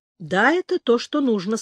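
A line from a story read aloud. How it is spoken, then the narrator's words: Plain. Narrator (Russian): сказал Орех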